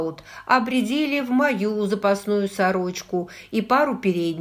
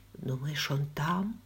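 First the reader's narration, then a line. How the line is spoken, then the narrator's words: Whispered question. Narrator (Russian): шепотом спросила я у Джейми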